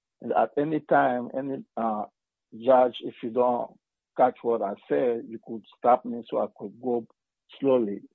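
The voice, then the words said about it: Strong foreign accent. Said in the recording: “my strong accent”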